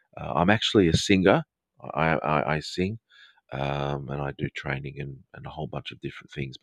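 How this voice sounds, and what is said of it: Educated Australian-Southern English, baritone voice. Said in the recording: “specific, probably Australian accent ... it's kind of a educated Australian slash maybe a Southern English sort of accent ... My accent is a little bit baritone-y”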